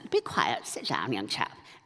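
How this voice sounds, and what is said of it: Put-on posh English accent. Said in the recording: “You could always imagine it in an English accent.”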